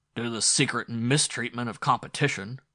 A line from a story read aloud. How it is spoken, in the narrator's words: growled a man in the gallery who had once owned a spaceline